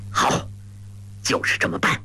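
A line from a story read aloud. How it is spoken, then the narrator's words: Through gritted teeth. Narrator (Chinese): 咬牙道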